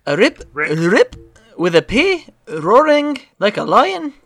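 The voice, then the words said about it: Put-on Irish accent. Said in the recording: “my Irish accent ... You have an Irish accent?”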